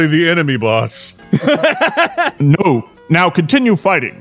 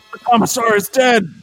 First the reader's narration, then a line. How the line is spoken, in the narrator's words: shouted the guardsman